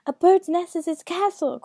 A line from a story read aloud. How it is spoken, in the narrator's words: cried the second